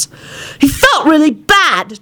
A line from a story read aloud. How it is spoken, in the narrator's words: Timothy snapped at John